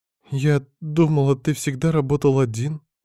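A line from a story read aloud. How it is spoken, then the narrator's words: Sobbing mumble. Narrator (Russian): все еще всхлипывая пробормотала Эвелин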